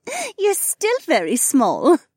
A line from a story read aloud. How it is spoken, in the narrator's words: Becca giggled